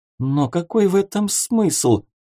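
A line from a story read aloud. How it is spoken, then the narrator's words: Sobbing. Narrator (Russian): всхлипнула Магда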